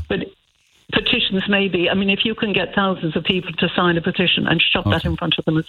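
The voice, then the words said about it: Non-native English accent. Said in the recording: “the accent says I'm not a native”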